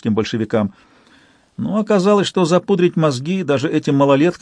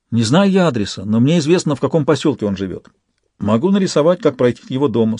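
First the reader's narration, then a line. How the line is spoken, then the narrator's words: Plain. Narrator (Russian): сказал Виктор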